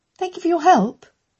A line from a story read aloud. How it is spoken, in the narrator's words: Amelia said brightly